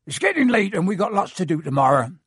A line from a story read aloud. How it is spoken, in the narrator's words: said Hagrid loudly